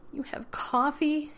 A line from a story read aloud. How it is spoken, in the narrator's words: He whined